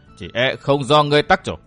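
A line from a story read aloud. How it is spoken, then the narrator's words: Cold faint smile. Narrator (Vietnamese): Vô Ảnh Kiếm cười nhạt nói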